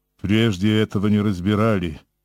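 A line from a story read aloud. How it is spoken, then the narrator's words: Imposing old man's voice. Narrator (Russian): внушительным тоном сказал старик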